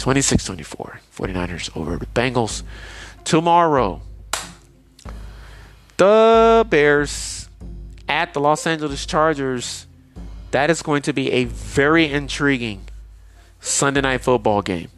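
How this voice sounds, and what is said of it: Tired-sounding voice. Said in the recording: “you can tell I'm very tired. You can hear it in my voice.”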